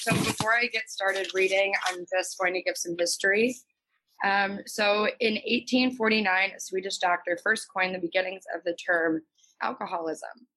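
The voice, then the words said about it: Slightly raspy voice. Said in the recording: “excuse my voice, it's a little raspy.”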